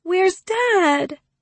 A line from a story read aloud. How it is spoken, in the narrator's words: Allie whines